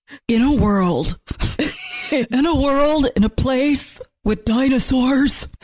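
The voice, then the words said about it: Deep movie-trailer announcer voice. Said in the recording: “sound like an action movie? ... announcer voice.”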